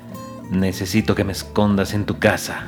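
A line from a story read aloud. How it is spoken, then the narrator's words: Murmur. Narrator (Spanish): murmuró el novelista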